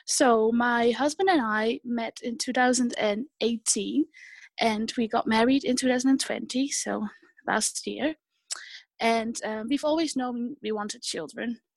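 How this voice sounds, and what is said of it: Dutch speaker with British-tinged accent. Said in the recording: “I am, as Shelly said, from the Netherlands. I've lived in the UK for a few years, so that's probably where I picked up my accent.”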